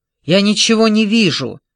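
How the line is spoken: Irritated shout. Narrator (Russian): раздраженно крикнул Элтон в ответ

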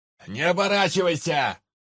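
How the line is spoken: Distant shout from below. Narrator (Russian): прокричал откуда-то снизу невидимый с крыши Анджей

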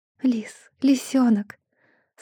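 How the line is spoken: Sobbing repetition. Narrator (Russian): Снова и снова повторяю его имя, всхлипываю

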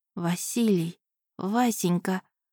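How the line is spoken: Trembling whisper. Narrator (Russian): прошептала я, и мой голос дрогнул

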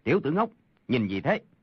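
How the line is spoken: Shout. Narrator (Vietnamese): Một người khác quát

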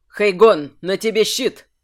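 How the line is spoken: Barked command. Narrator (Russian): Рявкнул Кирсан по ходу дела

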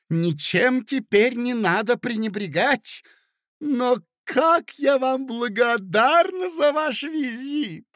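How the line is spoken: Shout. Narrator (Russian): закричала

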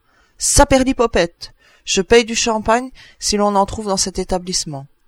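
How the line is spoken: Bird crying out. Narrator (French): l'oiseau cria

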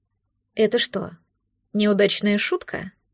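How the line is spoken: Cold question. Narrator (Russian): холодно спросила она

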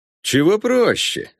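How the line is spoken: Laughing. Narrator (Russian): засмеялся Конор

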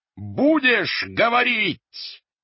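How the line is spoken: Sudden terrible piercing scream. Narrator (Russian): вдруг страшно, пронзительно закричал Рольф

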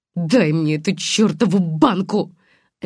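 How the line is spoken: Sharp bark. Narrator (Russian): рявкнула она

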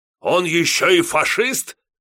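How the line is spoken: Roaring. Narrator (Russian): взревел резидент

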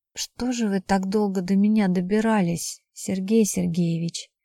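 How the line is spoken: Soft reproach. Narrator (Russian): мягко укорила Стоцкая

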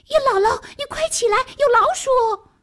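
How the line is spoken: Shouting urgently. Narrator (Chinese): 笤帚疙瘩喊

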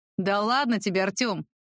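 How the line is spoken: Laughing. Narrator (Russian): худощавый рассмеялся

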